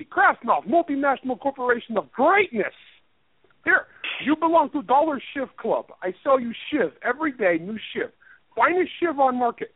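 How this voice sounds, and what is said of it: Poor put-on TV Russian accent. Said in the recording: “I have a terrible accent. I can't do accents for crap. They all sound like that. ... a softer version of TV Russian”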